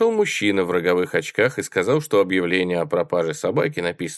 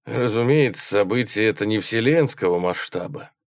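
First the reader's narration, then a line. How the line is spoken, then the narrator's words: Sigh. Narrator (Russian): вздохнул Келлер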